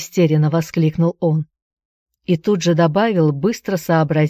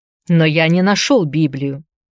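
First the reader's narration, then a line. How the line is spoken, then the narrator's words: Protesting shout. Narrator (Russian): Протестующе крикнул Филипп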